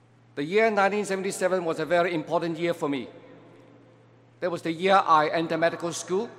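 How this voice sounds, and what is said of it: Usual voice. Nothing is said of it.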